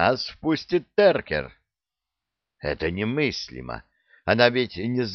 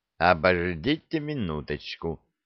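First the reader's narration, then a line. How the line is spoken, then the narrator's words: Plain. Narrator (Russian): сказал я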